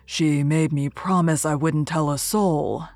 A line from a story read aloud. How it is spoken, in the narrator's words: said hoarsely